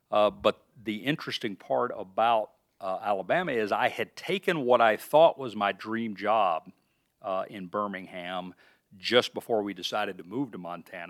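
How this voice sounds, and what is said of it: Southern American accent. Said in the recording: “the accent is not Iowa, or if it is Iowa, it's deep Southern Iowa. ... I grew up in Alabama”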